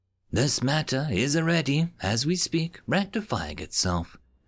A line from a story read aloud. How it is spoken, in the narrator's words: she said sweetly, her voice like droplets on a pond